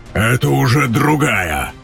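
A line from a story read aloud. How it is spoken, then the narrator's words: Bark. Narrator (Russian): гаркнул Тейрн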